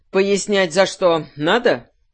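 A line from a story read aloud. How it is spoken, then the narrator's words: Menacing whistle. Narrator (Russian): Руал, сильно заинтересовавшийся происходящим, грозно засвистел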